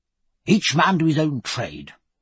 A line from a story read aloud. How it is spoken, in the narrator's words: he began earnestly